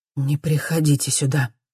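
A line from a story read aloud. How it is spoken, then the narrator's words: Hoarse voice over radio. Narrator (Russian): говорит она в рацию, не узнавая свой хриплый голос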